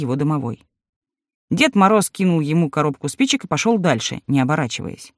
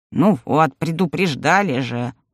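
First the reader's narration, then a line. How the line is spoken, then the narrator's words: Grumbling house spirit. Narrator (Russian): проворчал домовой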